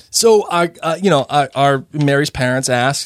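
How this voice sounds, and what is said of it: Heavy regional accent. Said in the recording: “how severely bad ... accent is”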